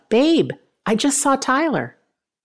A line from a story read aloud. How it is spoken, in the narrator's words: Tony yelled out